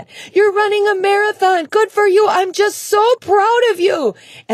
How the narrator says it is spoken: yelling

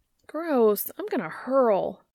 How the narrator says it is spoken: Jo whines

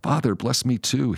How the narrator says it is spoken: he begged

